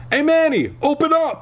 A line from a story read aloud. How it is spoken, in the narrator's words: I shouted